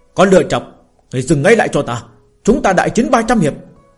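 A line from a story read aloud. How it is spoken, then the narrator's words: Loud shout. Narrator (Vietnamese): Lâm Phàm hét lớn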